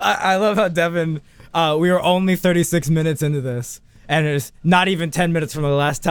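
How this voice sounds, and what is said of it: Usual voice. Nothing is said of it.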